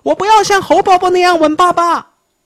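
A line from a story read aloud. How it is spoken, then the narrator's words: Child shouting. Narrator (Chinese): 熊宝宝叫道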